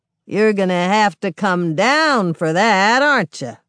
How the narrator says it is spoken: The man drawls

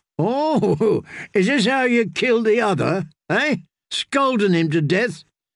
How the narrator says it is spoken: Darien laughed

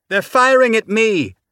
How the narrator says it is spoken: Tanaka shouted back

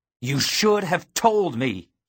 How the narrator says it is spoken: he roared

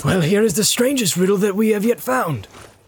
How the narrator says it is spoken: exclaimed Legolas

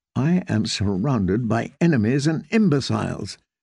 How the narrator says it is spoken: said

